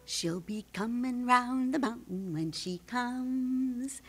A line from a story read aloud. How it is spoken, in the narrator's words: I quietly sang